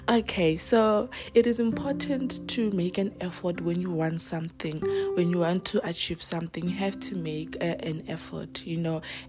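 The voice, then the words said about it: Sick, breaking flu-affected voice. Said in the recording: “apologize for my voice in advance. It's gonna break here and there. I'm a little bit flu-ish ... if I have to cough or clear my throat”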